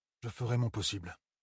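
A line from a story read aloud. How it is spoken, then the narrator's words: Muttered. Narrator (French): marmonna Perrine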